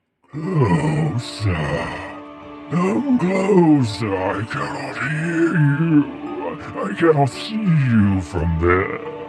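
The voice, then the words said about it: Creepy altered character voice. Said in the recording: “That's a pretty creepy voice effect you've put on your voice there.”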